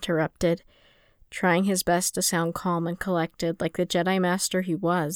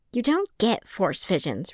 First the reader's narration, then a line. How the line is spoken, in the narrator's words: Rune snapped